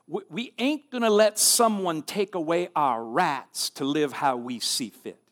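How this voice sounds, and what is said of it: Put-on Southern US accent. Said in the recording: “Sorry for my southern accent here.”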